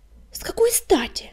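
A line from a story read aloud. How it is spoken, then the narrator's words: Brush shouting. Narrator (Russian): крикнула кисточка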